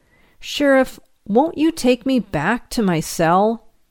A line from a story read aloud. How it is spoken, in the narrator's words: Being helpless to defend myself asked pleadingly